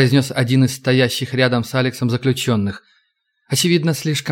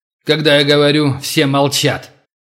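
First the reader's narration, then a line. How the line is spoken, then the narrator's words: Booming voice. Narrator (Russian): прогремел человек в черном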